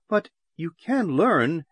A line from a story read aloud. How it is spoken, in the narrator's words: Ikara exclaimed